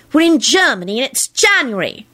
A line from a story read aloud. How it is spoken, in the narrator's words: she screeched